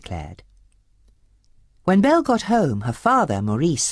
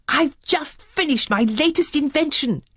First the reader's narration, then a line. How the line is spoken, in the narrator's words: he exclaimed